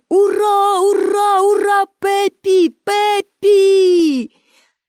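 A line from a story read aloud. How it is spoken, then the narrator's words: Crowd shouting. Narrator (Ukrainian): всі глядачі також закричали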